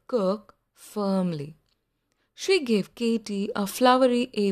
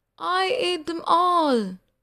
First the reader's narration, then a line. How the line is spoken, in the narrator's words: moaned Katie